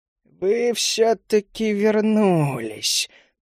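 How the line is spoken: Hoarse matriarch. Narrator (Russian): прохрипела матриарх кобальдов

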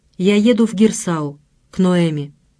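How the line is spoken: Even businesslike tone. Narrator (Russian): Ровным деловым тоном он сказал

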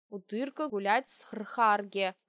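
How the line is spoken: Growl. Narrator (Russian): прорычал папашка

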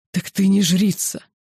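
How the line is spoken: Hissed. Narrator (Russian): прошипел весьма недалекого ума высший

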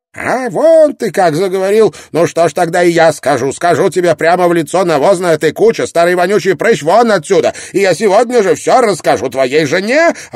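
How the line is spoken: Shrill shout. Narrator (Russian): круто повернулась и пронзительно крикнула

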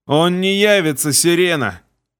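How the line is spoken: Hoarse goblin croak. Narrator (Russian): Прохрипел гоблин

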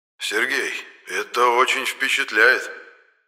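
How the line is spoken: Tense voice. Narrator (Russian): напряженным голосом произносит тайкун

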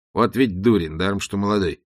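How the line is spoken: Muttering. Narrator (Russian): пробормотал он

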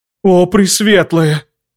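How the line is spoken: Convulsive gasp. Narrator (Russian): судорожно выдохнула Луиза де Клермон

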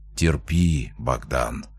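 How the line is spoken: Barely audible whisper. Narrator (Russian): прошептал еле слышно

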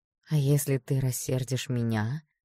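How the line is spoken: Gentle question. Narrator (Russian): ласково спросила я

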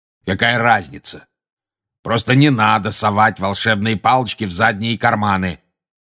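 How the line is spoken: Growled. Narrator (Russian): прорычал Грозный Глаз

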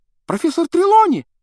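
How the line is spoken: Sudden startling exclamation. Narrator (Russian): Вдруг воскликнула Лаванда так, что все вздрогнули

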